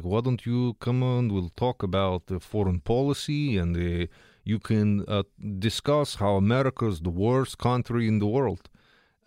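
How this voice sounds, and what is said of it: Fake Russia Today producer impersonation. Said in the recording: “that's actually not how the producers sound either. I'm giving you a fake Trudeau impersonation and a fake Russia Today producer impersonation. ... But in my mind, it's more like this.”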